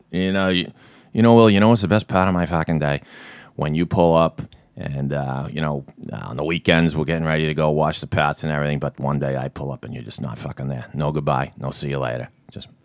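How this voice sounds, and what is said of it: Natural Boston accent. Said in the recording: “Damon and Affleck who just nail it... see, that sounds natural. You saying that... the Boston accent”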